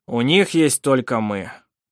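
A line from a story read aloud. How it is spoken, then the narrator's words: Dry. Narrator (Russian): сухо сказал Сармик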